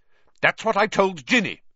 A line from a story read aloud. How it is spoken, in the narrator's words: said Percy fiercely